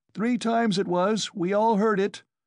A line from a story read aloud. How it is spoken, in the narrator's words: shouted a third